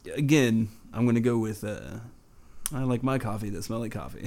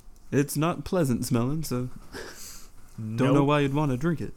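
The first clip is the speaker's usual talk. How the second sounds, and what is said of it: Imitates another person's voice. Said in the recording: “doing a Jimmy Carter voice,”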